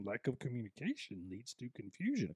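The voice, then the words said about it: Yoda character voice. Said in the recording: “you can do that in a Yoda voice,”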